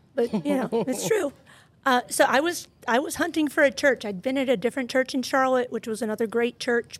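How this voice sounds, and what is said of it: Voice sounds a little off. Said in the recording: “apologize for my voice. ... I know it's a little funky.”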